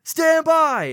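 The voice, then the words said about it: Loud yelling. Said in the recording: “sorry for yelling, by the way, in your ears.”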